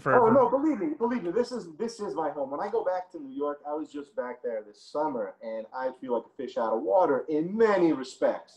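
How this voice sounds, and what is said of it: Noticeable regional accent. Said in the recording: “I know you still got the accent”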